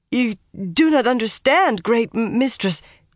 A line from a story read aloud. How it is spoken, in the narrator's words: Leandrin said frantically